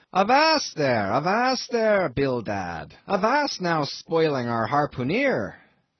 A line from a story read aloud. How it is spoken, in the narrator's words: cried Peleg